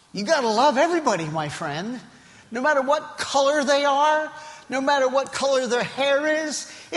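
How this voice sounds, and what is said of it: Foreign accent. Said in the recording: “people look at me and say, where did you come from? Never lose the accent.”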